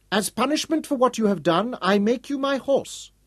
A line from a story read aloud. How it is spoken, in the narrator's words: Zayn told him loudly